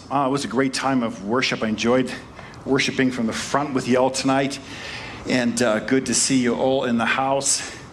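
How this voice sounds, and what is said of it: Slightly out of breath. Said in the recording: “I'm out of breath a little bit.”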